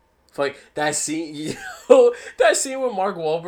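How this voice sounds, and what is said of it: Usual voice. Nothing is said of it.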